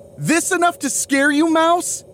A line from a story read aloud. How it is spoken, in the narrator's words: Ariel yells